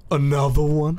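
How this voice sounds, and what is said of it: Imitates another person's voice. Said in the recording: “my Best DJ Khaled impression?”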